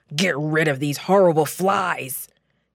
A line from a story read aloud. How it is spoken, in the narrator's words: Pharaoh shrieked